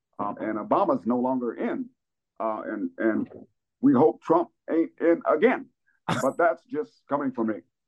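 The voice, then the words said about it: Imitates a politician's speech pattern. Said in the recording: “good Obama impression. ... You have the speech pattern down.”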